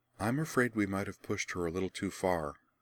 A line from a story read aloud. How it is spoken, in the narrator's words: Rian murmured to her friends across the aisle